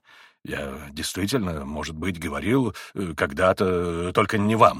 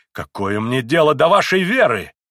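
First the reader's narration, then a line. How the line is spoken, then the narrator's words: Shout checked into contempt. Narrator (Russian): крикнул было Миусов, но вдруг сдержал себя, с презрением проговорив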